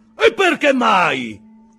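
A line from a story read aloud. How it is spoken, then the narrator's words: Shout. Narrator (Italian): gridò John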